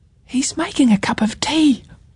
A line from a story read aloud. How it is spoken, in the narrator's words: whispered Ruby